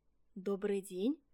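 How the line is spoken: Timid. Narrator (Russian): робко сказал Олешек

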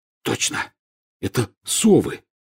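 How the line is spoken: Hoarse. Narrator (Russian): хрипло сказал Рон

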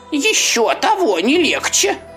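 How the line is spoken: Exclaimed. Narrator (Russian): воскликнула черепаха

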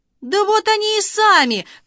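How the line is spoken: Loud joyful shout. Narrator (Russian): крикнул радостно на весь берег

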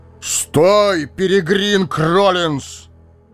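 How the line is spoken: Loud bark. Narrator (Russian): гаркнул Гэндальф

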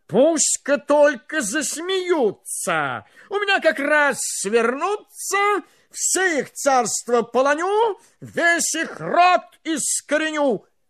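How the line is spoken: Angry shout. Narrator (Russian): Царь со гневом закричал

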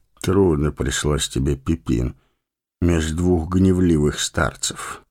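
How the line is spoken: Gentle, affectionate. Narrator (Russian): ласково проговорил он

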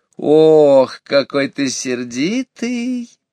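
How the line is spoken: Singsong, affectionate drawl. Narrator (Russian): таким же певучим, ласковым голосом протянула лисица

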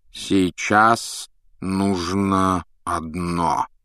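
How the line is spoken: Slow. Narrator (Russian): медленно проговорил Дамблдор

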